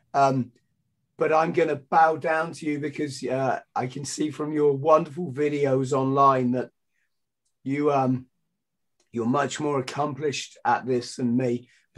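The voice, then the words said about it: Strained, fading hoarse voice. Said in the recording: “My voice is going, ... I've done 6 podcasts in 2 days”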